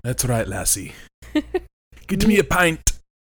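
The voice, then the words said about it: Put-on Irish accent. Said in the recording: “So you're like weird half Irish?”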